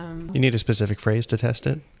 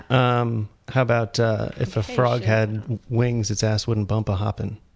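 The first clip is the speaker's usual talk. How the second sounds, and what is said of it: Put-on Texan drawl. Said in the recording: “Sounds pretty Texan.”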